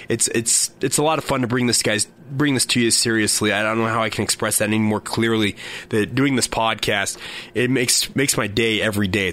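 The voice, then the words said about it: Sore, hoarse voice. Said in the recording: “my voice is still not 100%... even if I have to do it with a sore slash hoarse voice”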